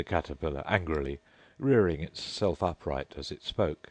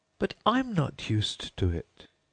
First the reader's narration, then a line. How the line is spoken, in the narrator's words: pleaded poor Alice in a piteous tone